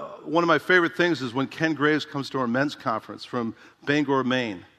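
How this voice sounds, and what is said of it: Usual voice. Nothing is said of it.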